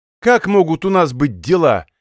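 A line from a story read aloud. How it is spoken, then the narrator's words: Irritated remark. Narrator (Russian): раздраженно отметил следователь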